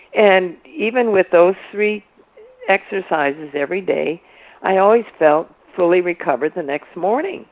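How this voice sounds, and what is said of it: Hoarse, froggy morning voice. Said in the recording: “I've got a frog in my throat. ... my voice is kind of waking up slowly ... I don't have a cold or anything”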